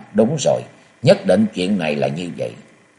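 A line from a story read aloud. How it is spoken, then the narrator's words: Sudden muttering. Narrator (Vietnamese): ông đột nhiên lẩm bẩm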